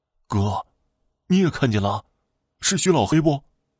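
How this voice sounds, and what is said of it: Trembling, frightened voice. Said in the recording (Chinese): “用颤颤巍巍的声音说道”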